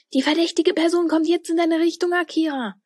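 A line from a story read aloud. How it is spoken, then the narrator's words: Excited call over walkie-talkie. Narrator (German): rief Tilda da aufgeregt durch ihr Walkie-Talkie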